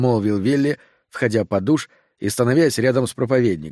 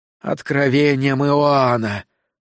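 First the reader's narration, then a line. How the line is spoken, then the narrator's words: Blissful moan. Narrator (Russian): Саттер блаженно застонал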